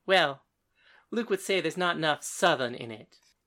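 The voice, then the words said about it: Slight Southern accent. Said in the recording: “Paris said, with a little bit of Luke's accent.”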